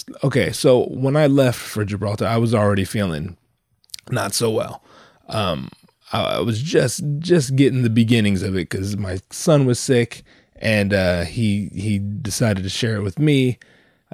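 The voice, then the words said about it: Rough, strained voice from illness. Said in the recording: “my voice is probably fucked... tell that to my throat”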